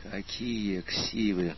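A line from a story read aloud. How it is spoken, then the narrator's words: Hiss, graduate student. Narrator (Russian): прошипел аспирант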